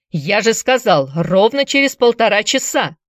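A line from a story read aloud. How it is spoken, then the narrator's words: Shouting. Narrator (Russian): закричал Тимминс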